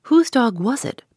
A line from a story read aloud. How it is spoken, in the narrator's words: persisted Sir Percival, repeating his question a little irritably